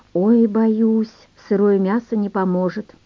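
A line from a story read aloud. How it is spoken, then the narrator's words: Sigh. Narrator (Russian): вздохнула Оксана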